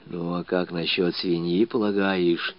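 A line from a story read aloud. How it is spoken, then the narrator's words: Whispered question. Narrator (Russian): Уж совсем шепотом спрашивал Кишкин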